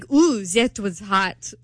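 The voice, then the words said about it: Bad put-on foreign accent. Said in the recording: “that was a really bad accent.”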